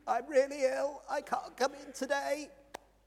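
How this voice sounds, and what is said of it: Feigned sick, weak voice. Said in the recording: “Shall I put on my sick voice? Because we've all got a sick voice, haven't we?”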